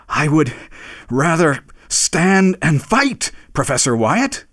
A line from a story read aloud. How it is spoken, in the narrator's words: panted as he said it